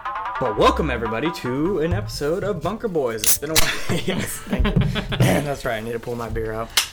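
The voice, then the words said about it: Sick, rough-sounding voice. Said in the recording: “I'm fucking sick. Which is why my voice sounds so sexy. So sexy right now.”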